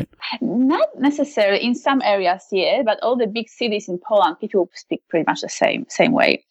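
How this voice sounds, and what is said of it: Polish Eastern European accent. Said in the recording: “you're originally from Poland... that wonderful Eastern European female voice... and my accent”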